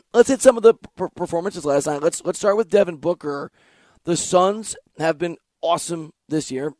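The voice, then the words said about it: Weak, hoarse, failing voice. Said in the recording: “a pharmacy that sells lozenges ... my voice just went away ... I literally unable to produce speech”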